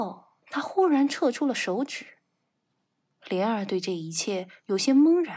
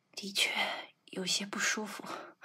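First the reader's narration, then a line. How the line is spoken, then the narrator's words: Low breathless gasp. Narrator (Chinese): 徐斐低喘一声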